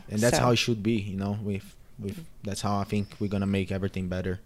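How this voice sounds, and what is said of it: Brazilian-accented English. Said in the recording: “I hope I did good with my English ... accents are great. I think they're beautiful ... Brazilian ... Accent.”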